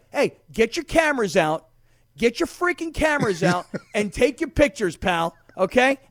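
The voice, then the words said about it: Yelling, loud shouted delivery. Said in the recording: “I'm yelling”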